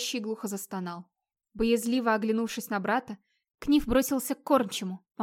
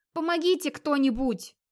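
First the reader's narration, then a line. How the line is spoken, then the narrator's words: Shouting. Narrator (Russian): крикнул Скейф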